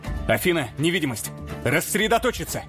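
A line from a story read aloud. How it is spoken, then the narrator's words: Telepathic bark. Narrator (Russian): мысленно рявкнул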